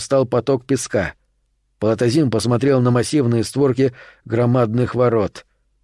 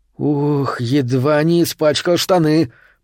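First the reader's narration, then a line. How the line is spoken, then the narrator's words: Groaning. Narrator (Russian): простонал Крыси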